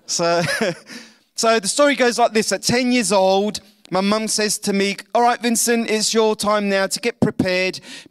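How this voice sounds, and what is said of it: English accent. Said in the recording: “I was born in London, so I have this pommy accent”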